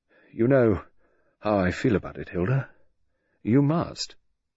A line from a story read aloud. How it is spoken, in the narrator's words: He said, and his voice was wistful